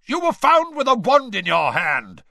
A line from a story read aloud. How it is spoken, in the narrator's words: barked Mr